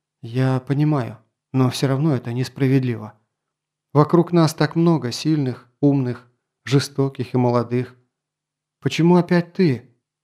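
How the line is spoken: Sighing. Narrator (Russian): Грон вздохнул

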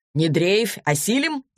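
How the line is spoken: Laughing. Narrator (Russian): засмеялся Денис

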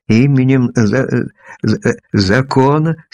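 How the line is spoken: Hoarse, forced-out words. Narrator (Russian): слегка охрипшим голосом выдавил наконец из себя

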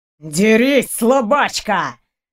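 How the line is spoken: Howled. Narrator (Russian): взвыл студент

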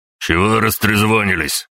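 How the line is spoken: Barked. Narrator (Russian): рявкнул он

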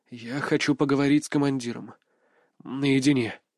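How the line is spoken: Firm, through gritted teeth. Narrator (Russian): процедил я, а мой голос прозвучал более твердо, чем я ожидал

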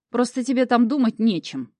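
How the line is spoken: Snapping younger one. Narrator (Russian): огрызнулся младший

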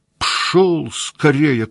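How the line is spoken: Shout in trembling voice. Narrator (Russian): крикнул дрожащим голосом

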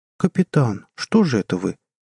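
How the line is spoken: Guilty voice. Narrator (Russian): виноватым голосом сказала Джанет

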